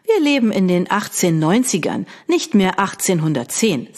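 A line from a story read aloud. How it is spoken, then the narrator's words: Plain. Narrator (German): sagte sie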